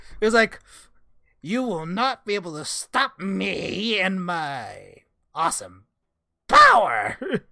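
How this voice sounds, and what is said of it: Video game character voice. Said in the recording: “I love this voice ... it's kind of what he sounds like in Age of Calamity”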